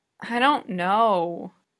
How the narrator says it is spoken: Utena groans

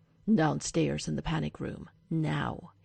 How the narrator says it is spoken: he growls

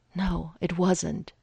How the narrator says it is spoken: he said breathlessly

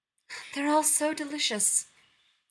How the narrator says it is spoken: Nero sighs theatrically

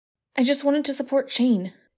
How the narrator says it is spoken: Hayden blurts out

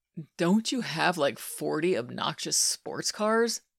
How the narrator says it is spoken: Scott groaned

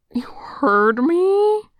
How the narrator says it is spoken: Chan cries, mortified

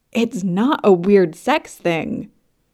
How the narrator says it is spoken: Anurag says, too loudly

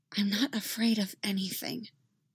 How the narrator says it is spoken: she whispers, assertive, into the dark

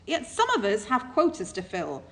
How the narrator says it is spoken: Crowley snapped, nettled

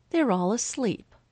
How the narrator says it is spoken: Aubrey says, more sharply than she had even intended

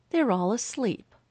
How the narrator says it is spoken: Aubrey says, more sharply than she had even intended

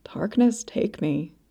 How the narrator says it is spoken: Stepan muttered, too loud not to be heard

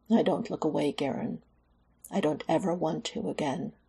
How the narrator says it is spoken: muttered

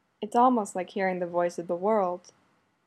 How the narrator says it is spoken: Takeshi murmurs

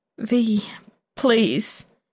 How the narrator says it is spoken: Anton whines, though he's not sure he knows what he's pleading for

